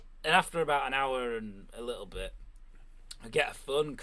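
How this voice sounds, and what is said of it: Usual voice. Nothing is said of it.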